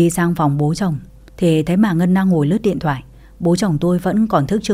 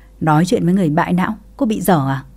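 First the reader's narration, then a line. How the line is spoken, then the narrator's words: Bursting into laughter. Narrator (Vietnamese): Ngân bà ấy bật cười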